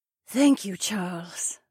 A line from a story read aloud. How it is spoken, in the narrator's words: Edany breathed